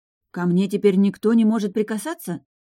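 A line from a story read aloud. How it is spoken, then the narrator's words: Indignant question. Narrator (Russian): возмущенно уточнила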